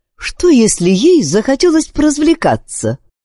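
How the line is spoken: Cheerful remark. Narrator (Russian): весело заметил Уильям

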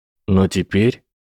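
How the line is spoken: Sad. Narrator (Russian): печально сказал Дин

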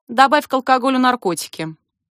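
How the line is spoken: Calm. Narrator (Russian): спокойно говорю я

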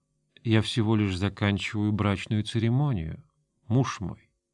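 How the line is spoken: Low-voiced reply. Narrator (Russian): вполголоса ответила

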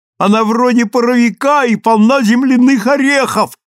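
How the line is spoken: Yelling while running. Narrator (Russian): орал он, бегом возвращаясь обратно

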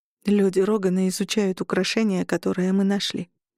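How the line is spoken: Muffled, flat voice. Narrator (Russian): сказала я глухо

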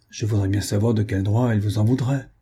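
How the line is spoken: Grumbled. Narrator (French): grommela-t-il

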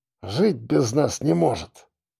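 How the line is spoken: Muffled grumble under pillow. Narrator (Russian): проворчал Шульгин, не вылезая из-под подушки

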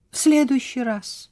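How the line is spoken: Exclaimed. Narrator (Russian): воскликнула она

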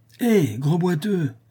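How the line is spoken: Shouted. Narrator (French): cria Nicolas

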